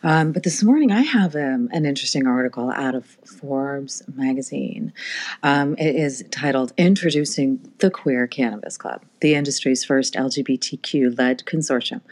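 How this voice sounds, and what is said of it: Rough, less than smooth voice. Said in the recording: “I'm a little less than smooth this morning... my voice is still fighting off a little bit of that cold”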